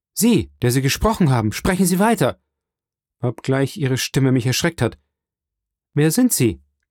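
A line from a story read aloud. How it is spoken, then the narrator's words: Called out. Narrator (German): rief Dantès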